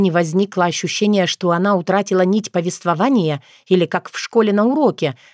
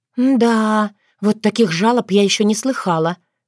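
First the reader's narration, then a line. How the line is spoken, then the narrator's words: Breathed out. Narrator (Russian): выдохнула Таня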